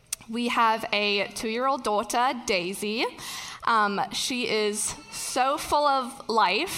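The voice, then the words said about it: Slight mixed German-British accent. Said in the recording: “you also may have detected a slight accent. ... it is ever changing ... originally from a small town in Germany ... My mom is German and my dad is British”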